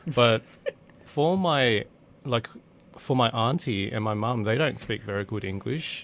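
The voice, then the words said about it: Broad Australian Bogan accent. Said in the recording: “my Bogan accent”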